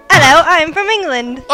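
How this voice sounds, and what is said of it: Put-on English accent. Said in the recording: “English accent”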